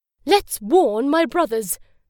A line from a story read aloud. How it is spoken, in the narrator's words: cried the little pig